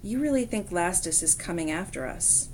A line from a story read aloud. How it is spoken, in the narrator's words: Rachel asked quietly